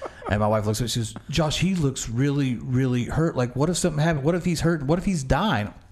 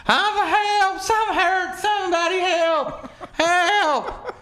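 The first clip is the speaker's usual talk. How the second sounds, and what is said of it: Screaming for help. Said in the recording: “he's screaming,”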